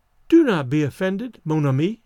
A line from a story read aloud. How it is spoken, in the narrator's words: she said kindly